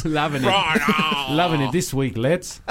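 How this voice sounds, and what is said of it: Put-on accent. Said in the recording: “you got so preoccupied with doing the accent, you couldn't do words”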